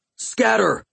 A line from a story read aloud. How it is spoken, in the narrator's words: I yelled